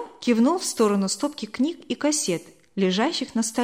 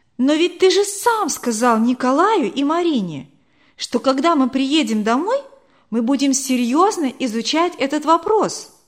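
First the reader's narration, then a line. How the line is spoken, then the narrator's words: Surprised exclamation. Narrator (Russian): Удивленно воскликнула Вера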